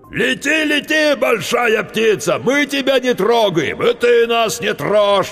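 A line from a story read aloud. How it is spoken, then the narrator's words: Shrieking eldest. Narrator (Russian): вопил старший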